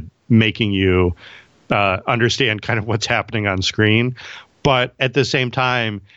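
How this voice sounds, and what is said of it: Usual voice. Nothing is said of it.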